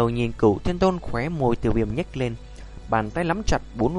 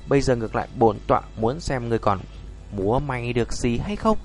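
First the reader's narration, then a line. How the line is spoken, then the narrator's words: Cold, harsh gritted voice. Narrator (Vietnamese): hắn gằn giọng nói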